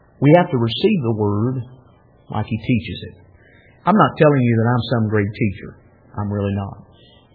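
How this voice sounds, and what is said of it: Rural hick-sounding regional accent. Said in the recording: “I still talk with an accent. People still make fun of me being a hick sometimes when I talk to them.”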